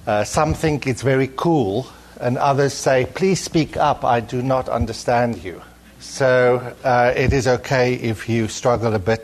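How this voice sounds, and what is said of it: Non-American foreign accent. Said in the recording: “get used to my accent ... I try and put an American emphasis on certain words so that it is understandable, but obviously I come from a different place”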